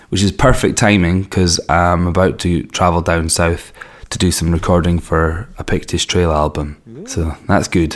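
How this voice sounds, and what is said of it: Raspy, hoarse voice. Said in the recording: “as you can tell from my throat, I'm a little bit raspy ... I've lost my voice”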